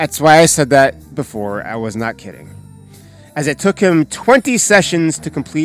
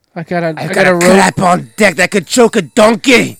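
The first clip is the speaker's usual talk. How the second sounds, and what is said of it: Imitated Scottish character voice. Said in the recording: “Shrek's accent is similar to the one Mike Myers uses in his character as Fat Bastard ... revoice Shrek in a Scottish accent”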